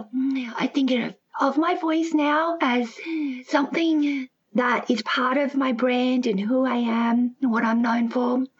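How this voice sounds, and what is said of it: Breathy voice. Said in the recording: “my voice is a bit breathy as well ... sound different than most other people”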